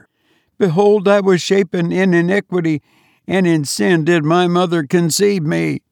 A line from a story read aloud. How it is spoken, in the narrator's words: she cried out